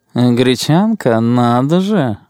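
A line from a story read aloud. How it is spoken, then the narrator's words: Purring. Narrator (Russian): промурлыкал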